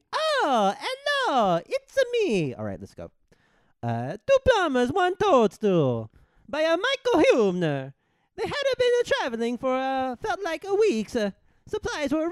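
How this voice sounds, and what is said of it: Super Mario character voice. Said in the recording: “read it in my Super Mario voice ... I'm going to do a Mario impression.”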